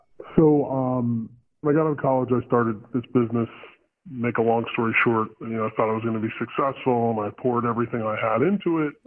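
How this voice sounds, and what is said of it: Electronically altered weird voice. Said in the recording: “You sound a little weird, too, but that's because our voice changer is on.”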